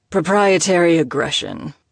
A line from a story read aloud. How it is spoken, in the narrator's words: Gabriel sighed